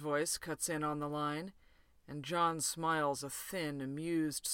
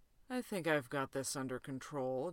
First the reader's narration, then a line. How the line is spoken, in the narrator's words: John murmurs